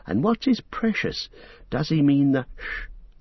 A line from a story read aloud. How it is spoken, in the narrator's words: breathed Frodo